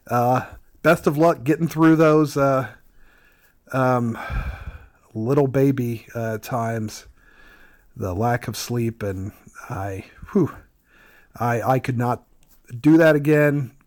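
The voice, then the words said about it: Squeaky voice from a cold. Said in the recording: “I'm getting over a little bit of a cold, so if I sound a bit like the squeaky voice teen from The Simpsons”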